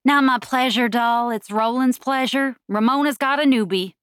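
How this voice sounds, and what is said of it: Imperfect put-on Southern accent. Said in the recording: “feigning a southern accent, which couldn't come close to the level of perfection mine did”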